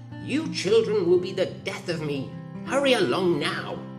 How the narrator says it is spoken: their mother grumbled

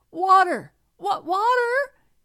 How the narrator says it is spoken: he cried in his despair

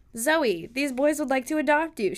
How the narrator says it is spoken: she bellowed in my ear

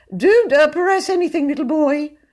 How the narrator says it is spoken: pleaded

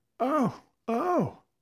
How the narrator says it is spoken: Della cried

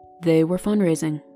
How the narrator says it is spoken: Seb said flatly

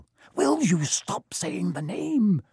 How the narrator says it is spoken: Ron hissed

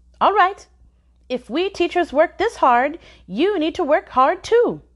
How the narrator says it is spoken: Song barked, her voice sharp and high

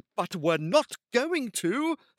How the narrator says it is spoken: Finn snapped back

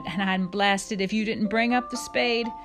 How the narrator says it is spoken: shouted

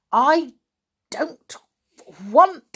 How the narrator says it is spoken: said Percy thickly

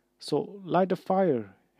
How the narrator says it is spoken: Harry choked

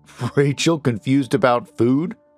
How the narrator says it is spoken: He chuckled

